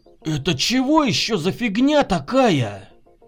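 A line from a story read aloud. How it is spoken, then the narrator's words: Puzzled exclamation. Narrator (Russian): Недоуменно воскликнул Егор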